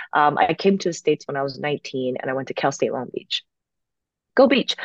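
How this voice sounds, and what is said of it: American-sounding accent. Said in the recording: “my accent's more American”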